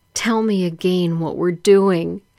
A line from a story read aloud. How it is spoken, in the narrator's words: Between our kisses and moans, I tell her